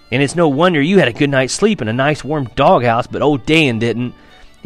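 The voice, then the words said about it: Irritated voice. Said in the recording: “in an irritated voice.”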